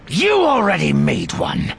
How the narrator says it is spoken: Desh snapped

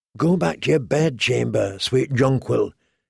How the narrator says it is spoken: he whispered

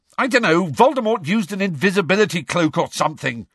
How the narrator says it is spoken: Harry shouted

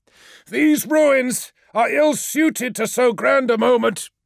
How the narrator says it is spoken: shouted Lemuel, his eyes of cold fire sweeping the warriors below with inhuman disdain

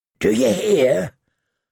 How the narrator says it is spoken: Hot Pie asked in a hoarse whisper

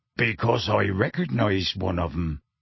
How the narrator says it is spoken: Hagrid growled

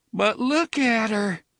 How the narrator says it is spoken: DePape almost moaned

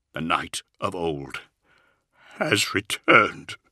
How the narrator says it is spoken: he said, his voice cracking with emotion

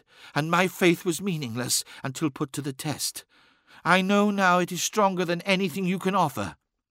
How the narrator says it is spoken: whispered

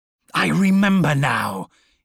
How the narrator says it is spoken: he snarled, blazing Medusan anger to meet his cold iron hatred

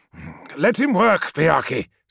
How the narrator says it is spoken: said Promus through gritted teeth

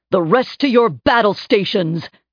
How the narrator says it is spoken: Hadrian shouted

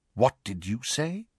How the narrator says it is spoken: Snape asked quietly, Snape was unnerved

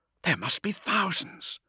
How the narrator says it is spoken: breathed Tosk

